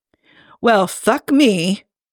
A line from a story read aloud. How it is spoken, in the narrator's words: Hobbs finally said calmly